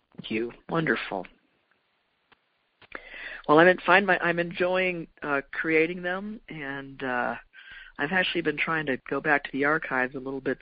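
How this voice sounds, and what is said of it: Hoarse, froggy voice. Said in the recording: “my voice is gone ... a recording or two that sounds a little froggy”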